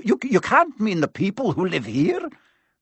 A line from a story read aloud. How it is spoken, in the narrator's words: cried Professor McGonagall